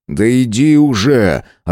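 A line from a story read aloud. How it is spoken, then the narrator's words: Irritated drawl. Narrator (Russian): раздраженно протянул я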